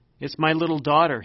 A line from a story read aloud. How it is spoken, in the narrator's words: he blurted out